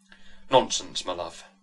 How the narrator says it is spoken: said the squire

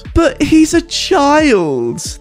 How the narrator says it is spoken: they squealed

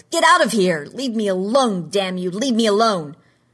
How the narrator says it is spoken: He yelled

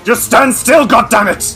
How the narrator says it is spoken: snarls and says

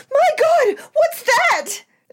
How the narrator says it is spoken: screamed out

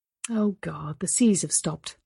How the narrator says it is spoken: she sighed

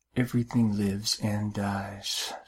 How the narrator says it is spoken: she whispered

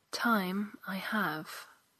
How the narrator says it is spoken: he said gently

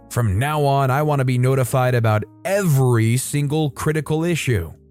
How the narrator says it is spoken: demands yelling

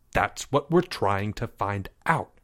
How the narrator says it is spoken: snapped Leo

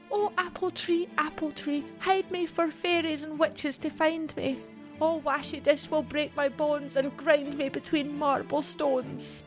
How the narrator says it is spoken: Mary pleaded

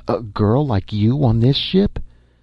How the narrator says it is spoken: Kent exclaimed

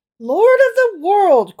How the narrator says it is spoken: cried the rabbi

